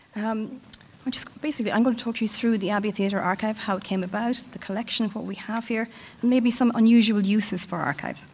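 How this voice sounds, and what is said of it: Husky, slightly hoarse voice. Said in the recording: “apologize for my voice, it's a bit husky at the moment.”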